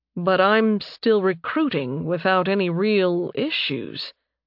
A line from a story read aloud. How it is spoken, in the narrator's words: he said slowly